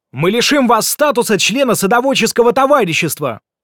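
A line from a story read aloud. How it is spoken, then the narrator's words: Yelling. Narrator (Russian): заорал Кука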